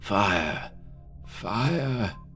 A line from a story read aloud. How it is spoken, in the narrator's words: His body shook convulsively again, but he continued to murmur